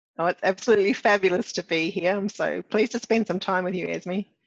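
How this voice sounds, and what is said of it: Mixed New Zealand, Australian, British accent. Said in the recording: “where's your accent from? ... Well, confused, actually. Started in New Zealand and it morphed into Australian and more recently, the UK.”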